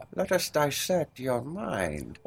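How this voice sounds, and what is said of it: Imitates another person's voice. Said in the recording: “That was my Sigmund Freud. ... It was a good impression. ... It was a really good one.”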